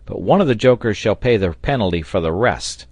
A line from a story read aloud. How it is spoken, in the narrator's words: cried Pencroft